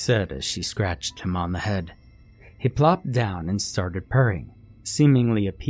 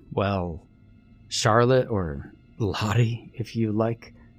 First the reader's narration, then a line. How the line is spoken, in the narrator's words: I stammered, still looking around the cemetery in confusion